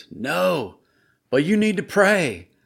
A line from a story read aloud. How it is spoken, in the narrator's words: He hollered over the crashing waves